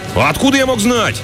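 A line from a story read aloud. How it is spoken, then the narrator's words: Snapping retort. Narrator (Russian): огрызнулся Джакс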